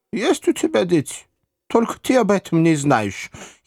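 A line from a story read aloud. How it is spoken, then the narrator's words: Giggle. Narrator (Russian): хихикнули раскосые желтые глаза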